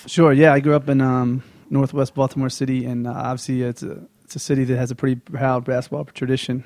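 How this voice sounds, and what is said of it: Baltimore accent. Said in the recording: “I picked up your accent because my mom is from Baltimore and Catonsville”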